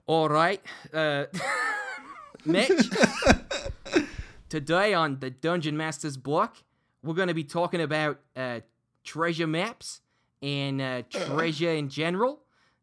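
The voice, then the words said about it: Character voice with a put-on accent. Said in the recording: “in One-Eyed Jack's voice ... kind of a terrible accent”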